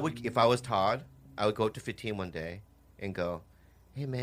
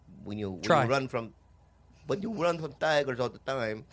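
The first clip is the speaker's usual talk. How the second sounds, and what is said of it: Attempted Nigerian accent. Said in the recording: “I don't know how to do a Nigerian accent. ... That's the exact same accent you do for like everything.”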